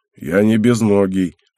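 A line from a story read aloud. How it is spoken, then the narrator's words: Grumbled reply. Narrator (Russian): пробурчал тот в ответ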